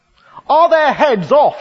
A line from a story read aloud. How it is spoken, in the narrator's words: shouted the Queen